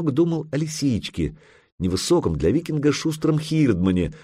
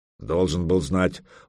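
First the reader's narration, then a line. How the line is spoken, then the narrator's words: Muttered. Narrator (Russian): буркнул Лапа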